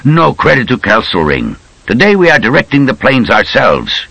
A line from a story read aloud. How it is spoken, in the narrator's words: Rommel snapped